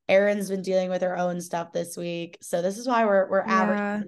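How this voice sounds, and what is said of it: Sick, unwell-sounding voice. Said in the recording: “can't tell by my voice, I'm sick.”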